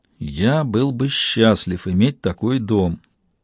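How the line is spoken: Muttered. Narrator (Russian): пробормотал Макс

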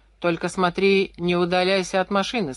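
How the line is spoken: Plain. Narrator (Russian): сказал

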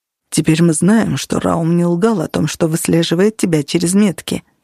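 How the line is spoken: Plain. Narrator (Russian): сказал Нигер

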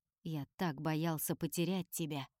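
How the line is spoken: Quiet speech. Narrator (Russian): тихо говорит Олесио

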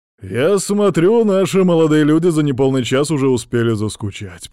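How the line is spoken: Booming voice. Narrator (Russian): прогремел голос князя Тигрова

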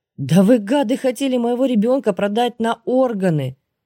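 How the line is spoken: Near tears. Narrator (Russian): Чуть было не разрыдалась я

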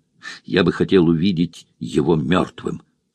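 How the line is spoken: Plain. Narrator (Russian): сказал он однажды

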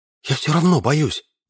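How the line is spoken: Whisper. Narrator (Russian): прошептала девушка

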